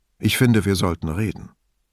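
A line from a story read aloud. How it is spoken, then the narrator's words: Calm. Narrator (German): sagte er ruhig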